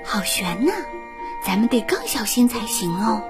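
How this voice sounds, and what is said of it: Quiet, hushed voice. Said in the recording (Chinese): “艾莎小声对安娜说”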